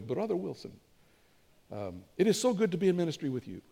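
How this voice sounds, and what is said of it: Put-on Ethiopian accent. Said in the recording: “I add my accent to that, and it's really funky. You know, I hear them, you know, like Ethiopian accent”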